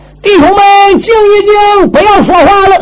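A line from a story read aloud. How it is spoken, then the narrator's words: Shouted. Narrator (Chinese): 牛高搁下边也喊了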